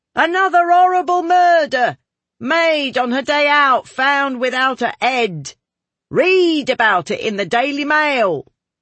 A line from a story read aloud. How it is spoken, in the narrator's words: Newspaper boys called out